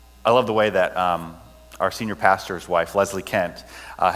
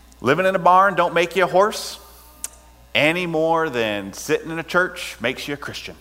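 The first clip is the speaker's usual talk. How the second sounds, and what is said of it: Clumsy imitation of North Carolina accent. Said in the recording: “she's from North Carolina, has a good North Carolina accent, so I'm going to butcher that, but I'm going to do my best with it ... I told you I was going to butcher it.”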